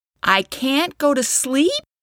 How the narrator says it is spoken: Katie exclaimed

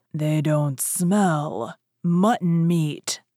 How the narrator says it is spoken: growled

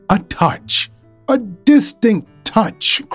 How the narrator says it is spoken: cried

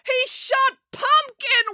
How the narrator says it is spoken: wailed April

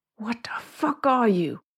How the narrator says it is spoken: Gabriel hissed

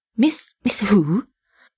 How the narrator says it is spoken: He breathed

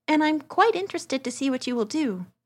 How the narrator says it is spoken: Dorothea went on cheerfully

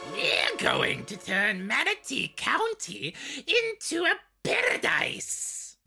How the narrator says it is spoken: Ratrick shrieked

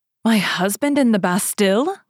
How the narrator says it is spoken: cried Madame Bonacieux

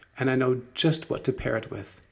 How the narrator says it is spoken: Ella cried

